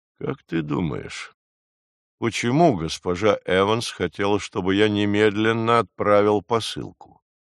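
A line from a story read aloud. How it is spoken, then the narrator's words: Plain. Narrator (Russian): спросил Войнич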